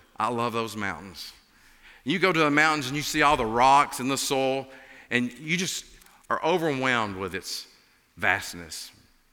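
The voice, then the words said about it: Appalachian accent. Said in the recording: “as you can tell from my accent, I'm an Appalachian”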